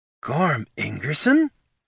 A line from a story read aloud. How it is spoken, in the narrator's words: she gasped